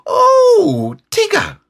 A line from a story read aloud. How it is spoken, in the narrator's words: squeaked Roo excitedly